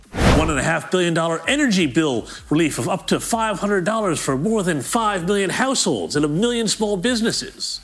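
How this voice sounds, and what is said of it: American accent. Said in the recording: “I don't like hearing our budget in an American accent. Doesn't sound right, does it?”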